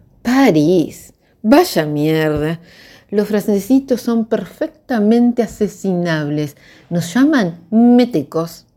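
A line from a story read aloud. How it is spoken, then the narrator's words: Dull-eyed exclamation. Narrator (Spanish): exclamó Paula con la mirada opaca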